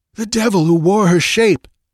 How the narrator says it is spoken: panted Valerius

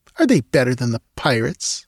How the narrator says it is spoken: she asked scornfully

